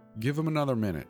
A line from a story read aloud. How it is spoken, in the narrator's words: I said